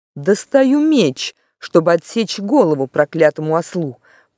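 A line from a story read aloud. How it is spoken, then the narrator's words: Terrible menacing voice. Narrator (Russian): произнес Тириан страшным голосом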